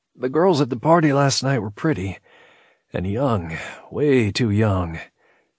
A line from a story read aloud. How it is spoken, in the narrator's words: Emitting a rueful chuckle, he admitted